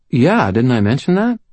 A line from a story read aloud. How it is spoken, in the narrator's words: I asked her, my tone perfectly innocent